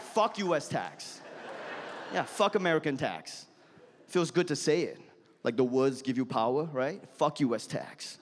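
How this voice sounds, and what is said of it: Foreign accent. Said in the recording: “You like it when this fucking foreigner says it? ... You like it when this accent says that?”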